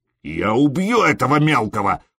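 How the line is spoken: Growled. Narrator (Russian): прорычал Скьорн

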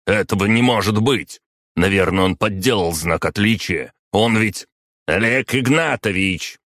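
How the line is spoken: Very loud bark. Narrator (Russian): рявкнул Киреев так громко

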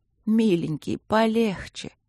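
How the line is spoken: Hoarse, broken, drawn-out moaning. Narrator (Russian): Просила она сипло, прерывалась, стонала протяжно

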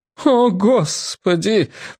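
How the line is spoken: Moan. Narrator (Russian): простонала старшая воспитательница

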